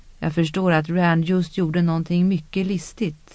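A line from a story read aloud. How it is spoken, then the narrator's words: Flat toneless voice. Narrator (Swedish): sa Egwene med tonlös röst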